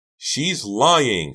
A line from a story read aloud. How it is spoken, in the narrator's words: Karina cried again